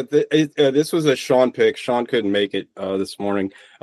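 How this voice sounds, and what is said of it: Baltimore accent. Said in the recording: “apparently I have a horrible Baltimore accent”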